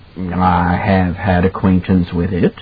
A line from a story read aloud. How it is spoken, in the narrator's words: Halloran said gravely